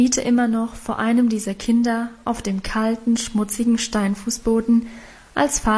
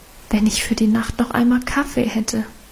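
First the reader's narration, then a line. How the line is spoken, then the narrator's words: Hesitant addition. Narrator (German): fügte sie zögernd hinzu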